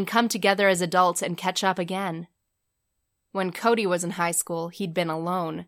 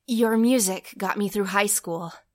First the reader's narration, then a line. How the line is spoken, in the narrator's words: he nervously told, embarrassed by the way his hands and voice were shaking